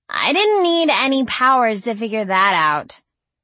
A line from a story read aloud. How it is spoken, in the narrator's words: scoffed Sydney